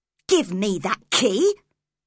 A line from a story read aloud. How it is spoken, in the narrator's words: cried Cathy angrily